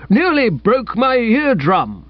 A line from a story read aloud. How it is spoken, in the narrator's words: grumbled old Bassett